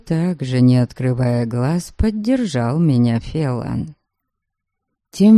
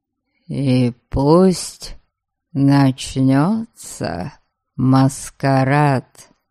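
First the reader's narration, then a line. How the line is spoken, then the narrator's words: Thoughtful drawl. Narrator (Russian): Задумчиво протянул Фелан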